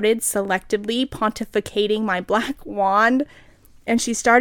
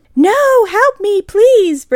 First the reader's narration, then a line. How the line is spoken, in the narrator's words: Brittany screamed terrifiedly